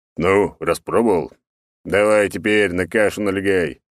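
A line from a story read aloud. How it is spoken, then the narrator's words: Approving deep bass. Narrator (Russian): одобрительно пробасил Черномор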